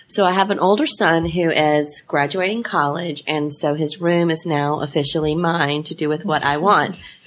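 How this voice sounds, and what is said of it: Hoarse voice from a cold. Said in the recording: “I'm a little hoarse this week. I have a cold.”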